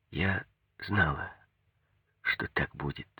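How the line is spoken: Hushed serious whisper. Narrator (Russian): Она снова притихла, посерьезнела, как тогда в комнате, и сказала шепотом

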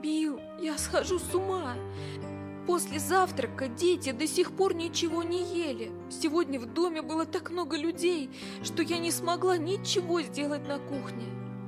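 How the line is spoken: Sobbing woman. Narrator (Russian): Меда сказала, рыдая

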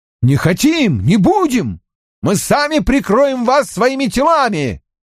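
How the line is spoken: Group yelling. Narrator (Russian): заорали в ответ бароны

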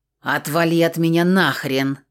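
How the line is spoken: Growled back. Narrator (Russian): зарычала в ответ

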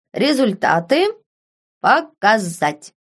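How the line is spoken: Loud, into the air. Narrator (Russian): громко проговорил он в пространство

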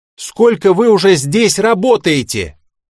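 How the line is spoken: Shout. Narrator (Russian): закричал я

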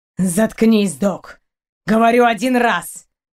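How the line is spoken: Barked. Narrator (Russian): Рявкнул капитан

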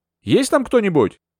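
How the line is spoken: Shouted. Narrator (Russian): я крикнула

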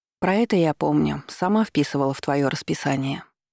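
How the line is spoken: Sighing. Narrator (Russian): вздохнула

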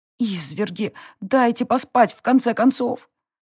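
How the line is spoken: Groaning. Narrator (Russian): простонала я

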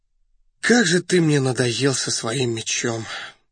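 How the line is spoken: Sighing. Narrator (Russian): вздохнул Раст Петрович

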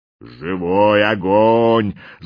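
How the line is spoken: Shaman growling. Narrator (Russian): зарычал шаман

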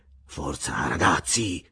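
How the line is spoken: Murmured. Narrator (Italian): mormorò

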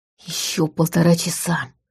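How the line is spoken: Whispered. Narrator (Russian): прошептал рядом Ваня

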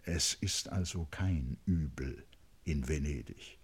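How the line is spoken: Very quiet through teeth. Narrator (German): fragte Aschenbach sehr leise und zwischen den Zähnen

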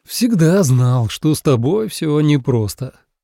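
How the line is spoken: Sighing. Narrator (Russian): вздохнул Анхари

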